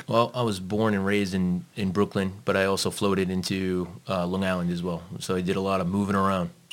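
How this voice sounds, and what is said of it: New York accent. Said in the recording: “we can tell from your accent, you're obviously not from around here ... I'm from New York, man.”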